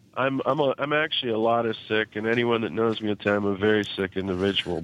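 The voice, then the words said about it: Sick, very nasal voice. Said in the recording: “Sounding a little sick ... I'm probably even more nasally than ever”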